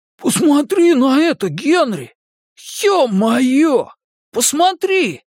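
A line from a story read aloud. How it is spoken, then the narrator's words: Hoarse wheeze. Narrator (Russian): рыгало просипел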